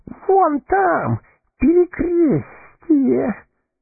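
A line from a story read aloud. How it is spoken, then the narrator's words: Hoarse wheeze. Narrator (Russian): сипел Горлум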